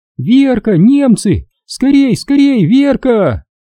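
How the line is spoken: Frightened shriek. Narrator (Russian): Завизжала от испуга Наташка

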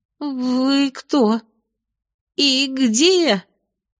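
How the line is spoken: Timid squeak. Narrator (Russian): Неуверенно пискнула

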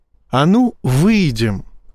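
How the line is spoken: Affectionate, almost purring. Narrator (Russian): сказал Боровский ласково, чуть ли не мурлыча

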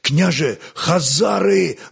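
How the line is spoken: Exclaiming. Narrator (Russian): воскликнул он

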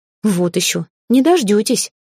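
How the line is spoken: Indignant snort. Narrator (Russian): возмущенно фыркнула

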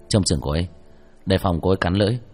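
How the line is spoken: Soft call. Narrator (Vietnamese): Hắn khẽ gọi một tiếng

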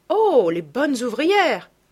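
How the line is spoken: Exclaiming. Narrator (French): s'écria-t-elle

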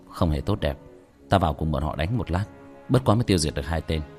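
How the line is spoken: Soft sighing voice. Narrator (Vietnamese): Tiểu Thất nhẹ nhàng thở một hơi, nhẹ giọng

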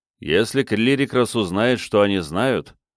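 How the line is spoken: Grim. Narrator (Russian): мрачно сказал Джон

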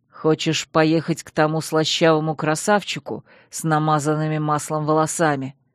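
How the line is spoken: Through tightly clenched teeth. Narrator (Russian): процедил Чейз сквозь плотно сжатые зубы

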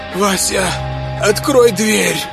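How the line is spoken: Failed shout, faint wheeze. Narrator (Russian): попыталась она крикнуть, но во рту была засуха, и из груди вырвался лишь тихий хрип

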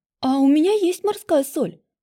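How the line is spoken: Sudden exclamation, businesslike. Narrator (Russian): Вдруг воскликнула девушка и деловито сказала

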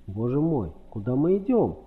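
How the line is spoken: Dramatic exclamation. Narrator (Russian): патетически воскликнул мистер Андерхилл

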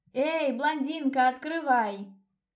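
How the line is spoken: Yelling ever louder. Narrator (Russian): Орала я все сильнее

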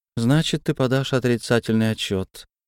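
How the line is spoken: Almost indifferent remark. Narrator (Russian): Почти безразличным тоном примолвила

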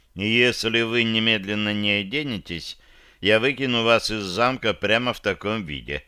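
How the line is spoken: Muffled, dull. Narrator (Russian): глухо уведомил я

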